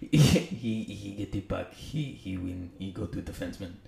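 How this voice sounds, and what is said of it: Put-on French Canadian accent. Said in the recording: “French Canadian ... best in French impersonation. ... It's actually pretty good, man. For not being French at all. ... You sound like the goalie in Slapshot.”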